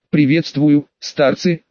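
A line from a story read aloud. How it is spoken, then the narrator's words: Laughing. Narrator (Russian): рассмеялся, одетый в черное Цзинин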